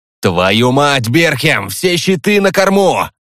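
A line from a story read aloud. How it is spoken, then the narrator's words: Frantic yelling. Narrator (Russian): Крок сейчас орал как ненормальный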